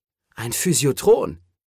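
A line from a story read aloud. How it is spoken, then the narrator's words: Called out. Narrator (German): rief Cole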